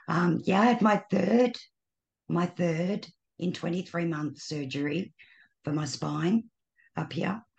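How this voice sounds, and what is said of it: Slightly raspy, tired voice. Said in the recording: “voice is a little raspy ... My voice, it gets tired.”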